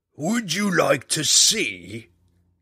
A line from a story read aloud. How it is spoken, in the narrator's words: came the dragon's answer in a sinister, smoking hiss